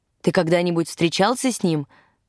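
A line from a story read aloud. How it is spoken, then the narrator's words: Plain. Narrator (Russian): спросила Элла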